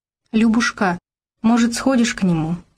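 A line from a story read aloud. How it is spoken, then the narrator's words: Timid question. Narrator (Russian): робко спрашивала Вера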